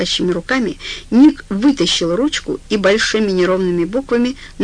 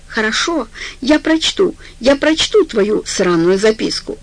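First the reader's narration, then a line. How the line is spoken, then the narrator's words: Shout. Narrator (Russian): Она закричала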